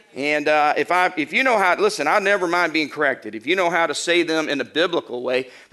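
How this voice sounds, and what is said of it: Arkansas Southern accent. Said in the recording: “my Arkansas dialect is really rough on these biblical names”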